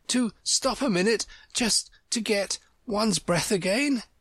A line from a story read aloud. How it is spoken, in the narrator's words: Alice panted out, after running a little further